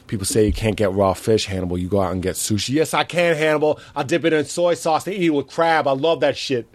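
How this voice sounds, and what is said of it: Imitates another person's voice. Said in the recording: “your Hannibal impression is awesome ... Can you do it? ... Actually really good ... That's actually very good.”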